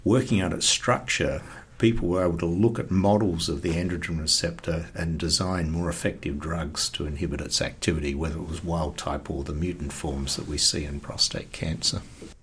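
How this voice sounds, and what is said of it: South Australian accent. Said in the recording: “He's not a Texan cowboy, as you probably got from his accent. He originates right here from the Riverland in South Australia.”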